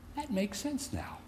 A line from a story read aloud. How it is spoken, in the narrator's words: The veteran homiletics professor, a pastor himself for many, many years, gently smiled and began to say